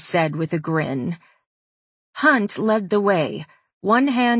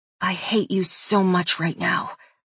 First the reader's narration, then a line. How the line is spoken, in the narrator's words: I whispered